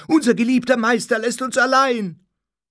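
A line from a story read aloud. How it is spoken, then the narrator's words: Many voices shouting together. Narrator (German): schrie alles durcheinander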